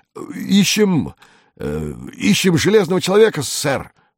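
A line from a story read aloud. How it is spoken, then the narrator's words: Stammering. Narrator (Russian): заикаясь, проговорил он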